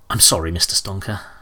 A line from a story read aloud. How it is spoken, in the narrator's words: he said quietly